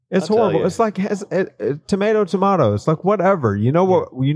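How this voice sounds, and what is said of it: Strongly pronounced regional accent. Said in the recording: “I've got a really pronounced accent.”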